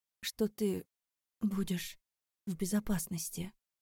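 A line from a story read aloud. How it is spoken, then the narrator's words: Quiet, stalling for time. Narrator (Russian): Тихо произнесла я, чтобы выиграть время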